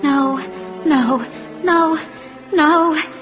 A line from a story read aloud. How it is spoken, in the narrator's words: Carly Beth moaned